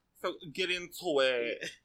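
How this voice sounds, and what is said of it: Campy villain character voice. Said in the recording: “my Drag Race villain voice”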